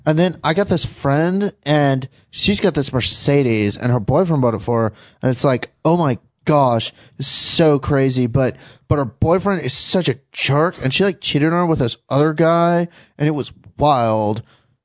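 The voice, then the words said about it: Party girl impersonation. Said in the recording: “Party girls like her, girls that are like, oh my gosh. ... That was really good. How long do you practice these impersonations that you do?”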